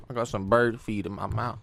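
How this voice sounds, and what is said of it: Mumbling with a full mouth. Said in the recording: “you're mumbling”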